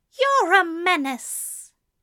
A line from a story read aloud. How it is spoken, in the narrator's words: Aziraphale, screwing up his nose in distaste, exclaims